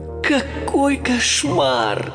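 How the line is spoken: Groaning. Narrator (Russian): простонал Майло

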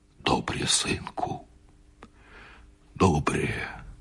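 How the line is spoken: Quiet. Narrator (Russian): сказал тихо Бульба

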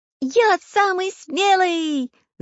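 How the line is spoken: Shrieked. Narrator (Russian): завизжал Чижик

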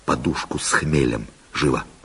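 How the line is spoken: Whispered order. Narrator (Russian): шепотом приказал

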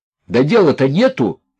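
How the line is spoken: Psychopath shouting. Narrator (Russian): закричал ему в бородку психопат

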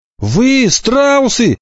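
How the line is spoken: Angry shout. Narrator (Russian): крикнул он и сердито

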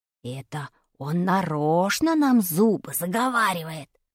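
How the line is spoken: Whisper in ear. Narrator (Russian): шепнул мне на ухо Вадик

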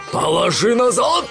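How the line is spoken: Roaring robber. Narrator (Russian): взревел один из разбойников

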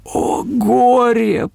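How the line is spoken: Pitiful, sobbing. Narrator (Russian): произнес бедный Нигель и всхлипнул

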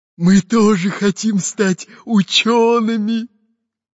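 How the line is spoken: Hoarse wheeze. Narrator (Russian): Просипел капитан Буль-Буль

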